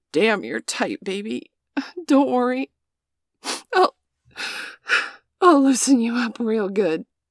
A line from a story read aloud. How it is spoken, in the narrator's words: grunt and say